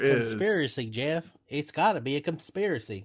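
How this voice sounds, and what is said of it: Put-on redneck accent. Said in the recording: “god-awful redneck accent”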